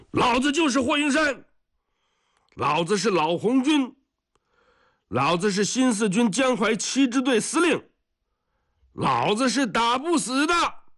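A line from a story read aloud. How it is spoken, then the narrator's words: Shouting. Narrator (Chinese): 每当照明弹出现的时候，他都要回过头来喊一声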